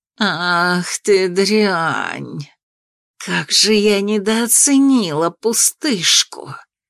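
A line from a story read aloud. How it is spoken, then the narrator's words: Hissing, witch. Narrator (Russian): Прошипела колдунья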